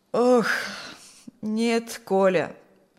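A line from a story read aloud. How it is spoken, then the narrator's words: Sigh. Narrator (Russian): Снова вздохнул Фокт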